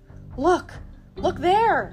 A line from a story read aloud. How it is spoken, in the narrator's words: cried